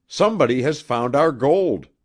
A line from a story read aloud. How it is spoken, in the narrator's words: cried Wabi, almost savagely